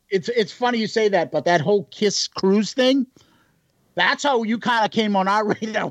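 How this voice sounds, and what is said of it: Boston accent. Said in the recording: “you guys have just ridiculous accents ... Boston was here first, so our accents are correct”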